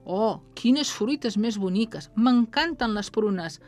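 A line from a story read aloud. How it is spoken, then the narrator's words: Joyful exclamation. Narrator (Catalan): va exclamar amb alegria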